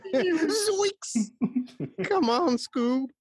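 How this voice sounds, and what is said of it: Cartoon character voice impression. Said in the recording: “you just pulled a Shaggy from Scooby-Doo ... your Shaggy ... impression”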